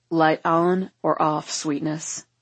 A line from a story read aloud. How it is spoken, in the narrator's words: he rumbles